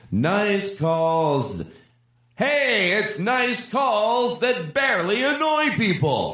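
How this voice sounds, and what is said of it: Yelling instead of singing. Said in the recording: “Now that wasn't singing. That was just yelling.”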